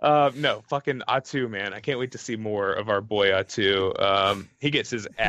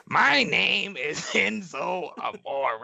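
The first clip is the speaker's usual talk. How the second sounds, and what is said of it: Imitates another person's voice. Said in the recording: “my Enzo and Amore impersonation... I'll do it again”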